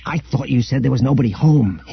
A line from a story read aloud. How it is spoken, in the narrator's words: hissed Han